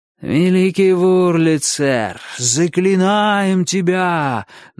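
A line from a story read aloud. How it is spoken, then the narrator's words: Chanting. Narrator (Russian): нараспев заговорил Авалон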